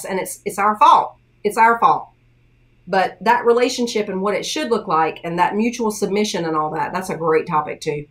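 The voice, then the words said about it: Tennessee Southern American accent. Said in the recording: “somebody with a similar accent ... Somebody else from Tennessee”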